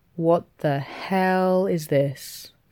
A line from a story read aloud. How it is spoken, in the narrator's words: Carl says slowly